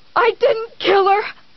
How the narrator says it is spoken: he screamed

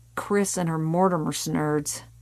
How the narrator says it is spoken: Martin murmured

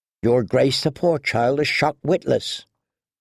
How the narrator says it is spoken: murmured Ser Dontos

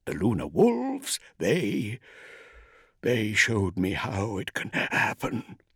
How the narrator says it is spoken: he gasped

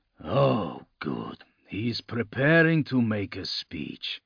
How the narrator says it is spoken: Lucas murmured

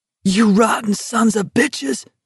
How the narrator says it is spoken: somebody screamed

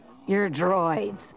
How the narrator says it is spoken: the bartender growled

